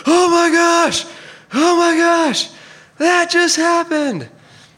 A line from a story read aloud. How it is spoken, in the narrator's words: with a joy I haven't felt since, screamed, and hollered